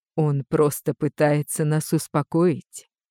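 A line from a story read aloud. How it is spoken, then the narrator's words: Quiet telling. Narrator (Russian): тихо сообщила мне Злата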